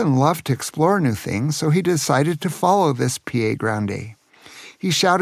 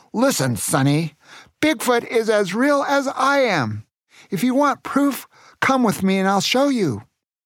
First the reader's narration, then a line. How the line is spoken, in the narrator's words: shouted